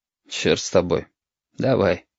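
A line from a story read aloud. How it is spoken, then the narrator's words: Sad. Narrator (Russian): грустно сказал Валентин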